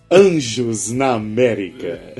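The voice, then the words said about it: Dramatic announcer-style dubbing voice. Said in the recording (Portuguese): “Com voz de locutor? ... Meio que de dublador da sessão da tarde.”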